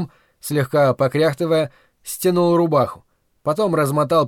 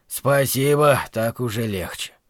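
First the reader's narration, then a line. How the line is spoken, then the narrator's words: Relieved as potion works. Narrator (Russian): Мастер, когда зелье начало действовать, сказал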